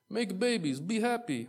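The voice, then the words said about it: Weak put-on Greek accent, sounds Russian. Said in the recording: “I don't think that's a very good Greek accent. I feel like that was more Russian.”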